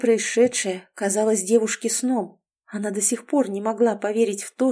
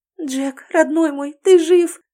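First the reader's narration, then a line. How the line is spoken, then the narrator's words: Sobbing incredulous babble. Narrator (Russian): всхлипывая, лепетала Элизабет, не веря своим глазам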